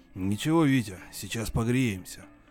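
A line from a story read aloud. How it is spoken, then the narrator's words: Hoarse voice. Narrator (Russian): отозвался другой, хрипловатый голос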